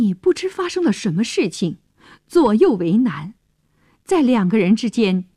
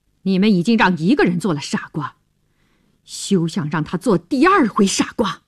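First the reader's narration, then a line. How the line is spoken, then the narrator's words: Cold. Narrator (Chinese): 乔治对他冷冷地说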